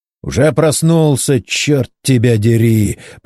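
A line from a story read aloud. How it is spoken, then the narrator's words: Hoarse rasp. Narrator (Russian): прохрипел инженер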